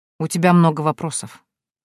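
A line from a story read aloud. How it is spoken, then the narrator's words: Calm. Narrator (Russian): спокойно произносит Сава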